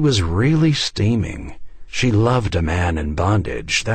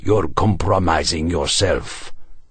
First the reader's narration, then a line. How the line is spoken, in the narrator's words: her husband hissed